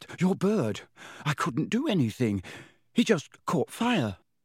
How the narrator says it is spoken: Harry gasped

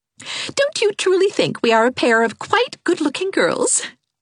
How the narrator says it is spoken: she laughed

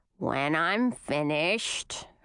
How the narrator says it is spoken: mother grumbled

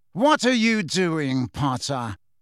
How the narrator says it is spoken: said Snape coldly as ever

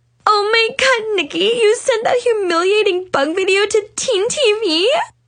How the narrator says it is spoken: Mackenzie shrieked

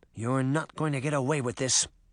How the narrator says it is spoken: she muttered

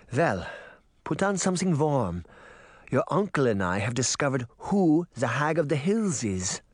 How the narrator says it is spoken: Granny Relda said

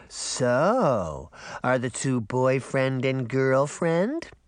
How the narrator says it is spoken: Daphne cooed

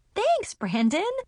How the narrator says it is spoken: I exclaimed

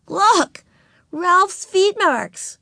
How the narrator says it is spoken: exclaimed Ramona

